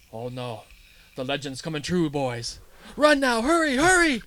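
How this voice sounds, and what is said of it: Put-on accent for quoted character. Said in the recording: “I love your accent with it, it's great.”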